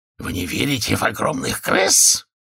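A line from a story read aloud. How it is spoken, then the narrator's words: Sudden angry hiss. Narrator (Russian): с неожиданной злостью прошипел господин Сетки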